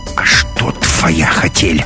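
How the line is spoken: Angry hiss. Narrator (Russian): рассерженной кошкой зашипела на него Маруся

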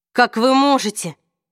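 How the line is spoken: Exclaiming. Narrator (Russian): воскликнул Алик, вскочив

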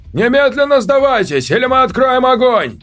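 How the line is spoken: Shouted. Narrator (Russian): он крикнул

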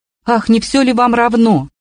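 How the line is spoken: Angry shout. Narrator (Russian): крикнула она сердито

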